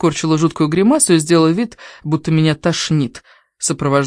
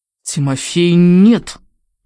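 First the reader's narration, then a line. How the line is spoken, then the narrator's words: Commanding voice. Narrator (Russian): сказала я самым командирским голосом, который только смогла изобразить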